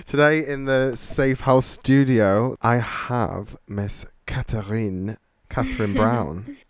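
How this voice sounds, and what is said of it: Put-on French accent. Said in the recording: “the French accent and everything.”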